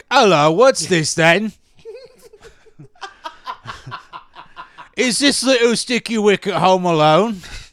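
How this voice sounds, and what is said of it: Deliberately bad put-on Cockney accent. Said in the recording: “I can do like a terrible Cockney accent ... If you want me to do a British accent, that's what I got.”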